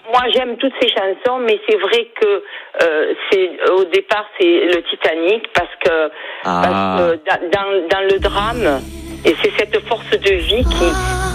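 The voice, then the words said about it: Slight Perpignan regional French accent. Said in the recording (French): “l'accent pertignanais ... On sent le petit accent”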